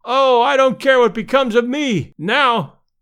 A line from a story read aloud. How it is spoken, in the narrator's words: one fan, evidently a little longer winded than his comrades, cried out hysterically